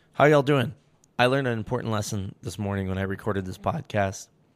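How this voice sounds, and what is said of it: Hoarse, congested voice from a cold. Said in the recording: “I'm Losing My Voice and I Have a Cold”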